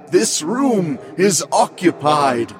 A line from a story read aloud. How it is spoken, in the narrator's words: the groom yells in a guttural voice